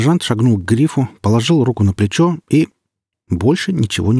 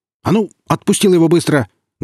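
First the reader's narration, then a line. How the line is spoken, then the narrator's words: Barked. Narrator (Russian): гаркнул капитан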